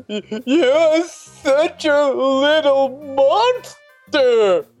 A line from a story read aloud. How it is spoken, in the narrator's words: Cynthia yelled at me